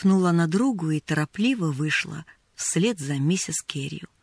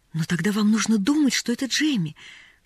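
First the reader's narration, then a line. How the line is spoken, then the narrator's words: Pleading. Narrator (Russian): взмолилась Поллианна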